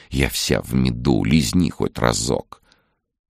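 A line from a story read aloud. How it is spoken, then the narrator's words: Hot, tempting whisper. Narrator (Russian): Нечто шоколадно-поджаристое в хрустящей золотистой корочке горячо шептало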